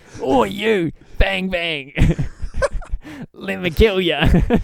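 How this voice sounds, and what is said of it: Jason Statham impression. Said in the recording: “Jason Statham impression”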